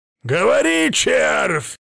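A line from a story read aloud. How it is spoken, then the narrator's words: Angry barking roar. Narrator (Russian): рассерженно гаркнул ящер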